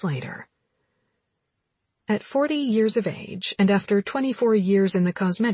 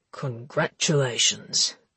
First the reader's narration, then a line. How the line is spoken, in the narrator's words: said Ollie in a smooth voice